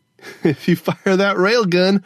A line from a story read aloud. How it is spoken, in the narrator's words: Gogo Fernanda laughed